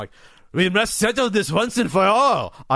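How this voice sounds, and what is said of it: Evil German Freudian accent. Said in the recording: “Evil ... German, ... German evil Freudian accent.”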